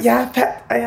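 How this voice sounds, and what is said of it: Imitates another person's voice. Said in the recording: “such a good impression of me”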